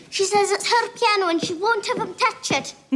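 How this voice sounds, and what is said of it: Scottish accent. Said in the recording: “Scottish was the answer. Anna Paquin, that was a Scottish accent.”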